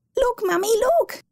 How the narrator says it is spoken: she had squealed over and over

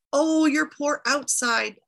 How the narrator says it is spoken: Asushunamir cried with her

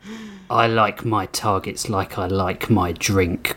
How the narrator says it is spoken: Grissom snarled

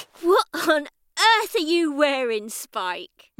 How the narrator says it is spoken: mocked Punk

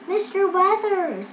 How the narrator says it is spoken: the girls called out

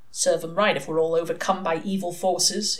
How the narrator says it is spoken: his master grumbled

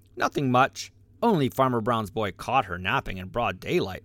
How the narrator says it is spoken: replied Sammy, and chuckled so that Reddy heard him

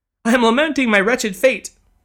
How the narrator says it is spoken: sobbed the lady, once again on the verge of tears

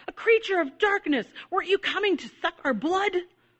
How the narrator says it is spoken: the child cried

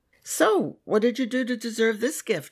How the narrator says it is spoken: I laughed

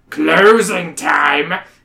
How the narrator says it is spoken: someone shout in the distance

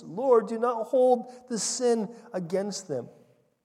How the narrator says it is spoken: he cried out with a loud voice

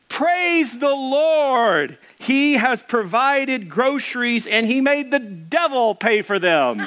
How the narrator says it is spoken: The little old lady shouted

